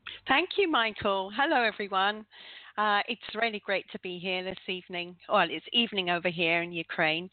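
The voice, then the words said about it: London accent. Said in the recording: “I am actually from London. I'd like to get that one in, but I guess you know that from my accent.”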